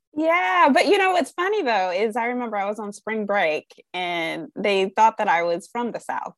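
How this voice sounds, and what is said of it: Clear Midwestern American accent. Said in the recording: “nice, very clear Midwest accent from Ohio”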